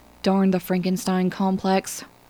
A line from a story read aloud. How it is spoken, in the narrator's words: Lanning would mutter